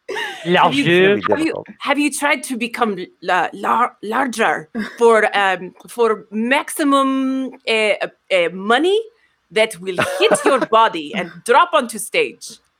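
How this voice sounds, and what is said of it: Put-on French accent. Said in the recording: “I've decided to do a French accent now.”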